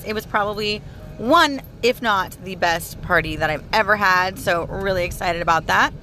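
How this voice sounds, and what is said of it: Hoarse, tired voice. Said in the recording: “My voice is a little hoarse ... if my voice sounds tired and hoarse”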